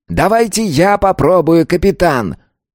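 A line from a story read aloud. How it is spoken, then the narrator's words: Loud, insistent. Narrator (Russian): громко, настойчиво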